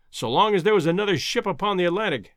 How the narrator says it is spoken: exclaimed Professor Summerlee heartily

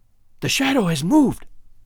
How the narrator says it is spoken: I cried

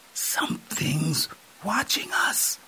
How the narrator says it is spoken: Nka whispered into M

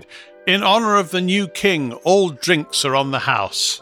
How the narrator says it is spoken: the heavy-set woman shouted

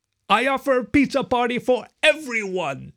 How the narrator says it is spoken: shouted Jim

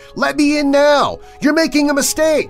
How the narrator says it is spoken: The kid kept screaming

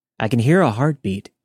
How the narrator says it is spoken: said

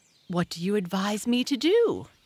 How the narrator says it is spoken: he inquired anxiously

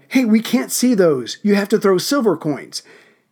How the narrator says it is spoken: the kids would yell

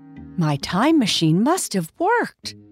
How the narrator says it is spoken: Bobby said excitedly

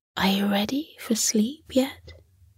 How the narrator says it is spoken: Midnight whispered to her

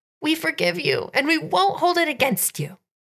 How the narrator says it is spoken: cried in joyful unison

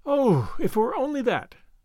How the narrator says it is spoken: sighed Anne

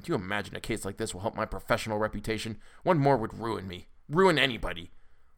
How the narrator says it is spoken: muttering

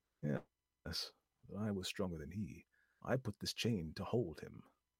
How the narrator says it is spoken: The Englishman answered quietly

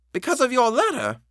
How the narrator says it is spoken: she eagerly brought out

